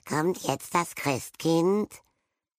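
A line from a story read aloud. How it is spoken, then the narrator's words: Small boy croaking. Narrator (German): Der kleinere Besenrieder-Knabe schaute aus dem Kinderzimmer und krächzte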